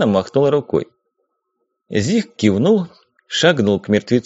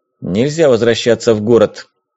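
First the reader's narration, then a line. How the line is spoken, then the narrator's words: Categorical declaration. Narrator (Russian): категоричным тоном заявил Бескудников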